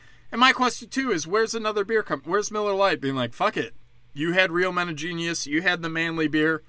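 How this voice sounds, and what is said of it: Usual voice. Nothing is said of it.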